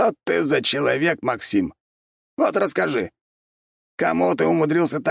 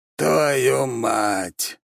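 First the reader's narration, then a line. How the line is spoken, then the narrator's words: Sighing. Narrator (Russian): вздохнул Чертков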